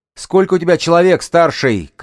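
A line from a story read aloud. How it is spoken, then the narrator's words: Shout. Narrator (Russian): крикнула Ханна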